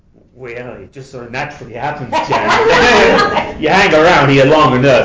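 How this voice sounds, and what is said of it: Louisiana accent. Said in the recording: “Oh, that's the accent. ... Over Louisiana.”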